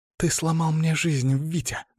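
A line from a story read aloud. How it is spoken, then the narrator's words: Hissing. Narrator (Russian): зашипела она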